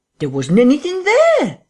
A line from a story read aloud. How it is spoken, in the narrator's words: said Cuss, his voice running up into a shriek at the there